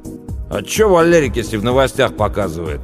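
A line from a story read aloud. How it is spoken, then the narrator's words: Snapped back. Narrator (Russian): огрызнулся Пашка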